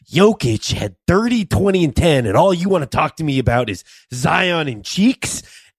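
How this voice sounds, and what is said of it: Mike Malone impression, Jack Nicholson-like. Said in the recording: “you have a little Jack Nicholson in your Michael Malone impression”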